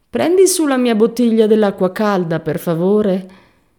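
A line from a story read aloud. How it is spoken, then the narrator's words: Whiny. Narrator (Italian): Benford, piagnucolosa, disse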